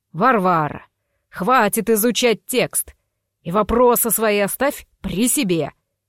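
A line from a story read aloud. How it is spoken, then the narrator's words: Growled. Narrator (Russian): рыкнул Шерханович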